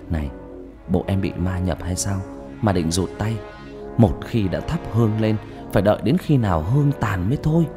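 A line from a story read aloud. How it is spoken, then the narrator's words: Whisper. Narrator (Vietnamese): Thằng Nam miệng thì thầm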